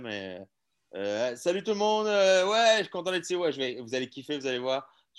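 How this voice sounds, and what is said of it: Put-on accent from France. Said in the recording (French): “je parle, moi, je, parle comme un, en tout cas, comme un mauvais français”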